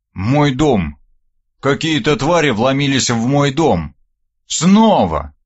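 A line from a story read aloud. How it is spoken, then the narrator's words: Growled reply. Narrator (Russian): рыкнул я в ответ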